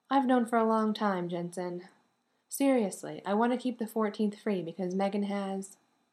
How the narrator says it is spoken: said in a casual tone

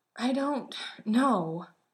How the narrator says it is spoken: Sam said, his breath coming out in short little grunts

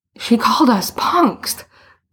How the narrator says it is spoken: Boots gasped

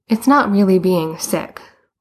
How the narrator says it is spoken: Boots said miserably

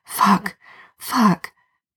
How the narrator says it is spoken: Jared mutter

